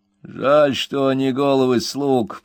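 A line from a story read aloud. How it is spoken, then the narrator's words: Grumbling, lanky man. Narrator (Russian): проворчал долговязый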